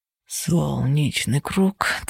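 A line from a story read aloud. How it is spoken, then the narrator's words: Quiet, clumsy singing. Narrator (Russian): тихо и не совсем складно пропел он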